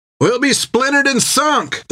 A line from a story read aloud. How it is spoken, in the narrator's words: they cried